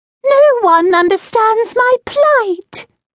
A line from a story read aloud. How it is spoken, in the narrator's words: he read, his voice squealing even higher